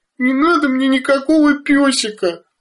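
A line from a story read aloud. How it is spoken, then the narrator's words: Sobbing. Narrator (Russian): рыдала Бетта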